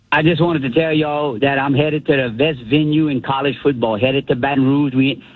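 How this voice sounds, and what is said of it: Striking regional accent. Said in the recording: “I love that accent. ... That accent is amazing.”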